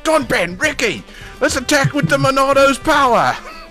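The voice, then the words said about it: Put-on Cockney accent. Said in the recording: “Xenoblade Cockney accents”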